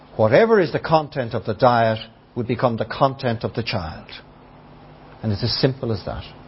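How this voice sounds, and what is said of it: Dublin Irish accent. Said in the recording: “I have a Dublin accent”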